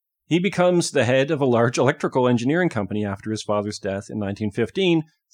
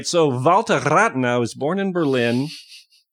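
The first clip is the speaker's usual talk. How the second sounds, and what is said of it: Exaggerated put-on German accent. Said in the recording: “You're overdoing it. ... You can't overdo a German accent.”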